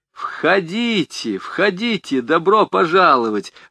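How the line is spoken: Joyful welcome. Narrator (Russian): радостно встретил их Кашфула

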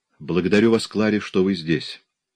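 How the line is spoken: Plain. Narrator (Russian): сказал Рона

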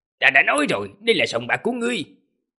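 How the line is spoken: Angry. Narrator (Vietnamese): Tề Tứ gia tức giận mà nói

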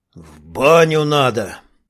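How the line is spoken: Sneezing reply. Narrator (Russian): чихнул в ответ чернявый

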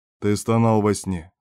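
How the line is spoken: Calm. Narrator (Russian): спокойно сказал шеф

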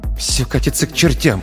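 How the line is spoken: Hurried mutter. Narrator (Russian): пробормотал, торопливо следуя

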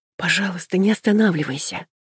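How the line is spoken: Whispered pleading. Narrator (Russian): Шепотом умоляю

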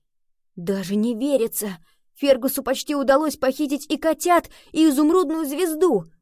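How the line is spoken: Exclamation. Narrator (Russian): воскликнул

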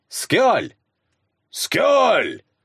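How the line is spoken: Barked. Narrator (Russian): рявкнул Славка

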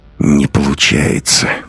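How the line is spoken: Muttered through clenched teeth. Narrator (Russian): проговорил сквозь зубы

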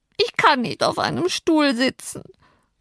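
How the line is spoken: Sobbing. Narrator (German): schluchzte er auf die Frage des Herrn

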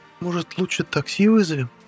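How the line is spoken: Hesitant witch's suggestion. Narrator (Russian): Неуверенно предложила ведьма

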